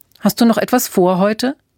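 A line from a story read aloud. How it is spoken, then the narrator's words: Plain. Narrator (German): fragte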